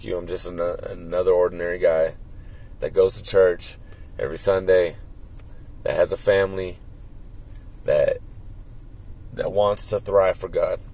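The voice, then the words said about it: Hoarse, strained voice. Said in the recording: “I'm already losing my voice.”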